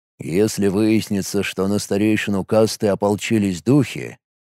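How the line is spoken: Usual wooden flat tone. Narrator (Russian): своим обычным тоном деревянного человека высказал Каналова

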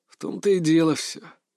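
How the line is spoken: Heavy sigh. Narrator (Russian): тяжело вздохнул

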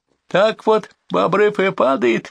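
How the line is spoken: High-pitched, forced through laughter. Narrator (Russian): высоким голосом сквозь смех продавил Витя

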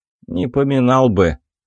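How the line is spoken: Gruff mutter. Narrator (Russian): буркнул второй

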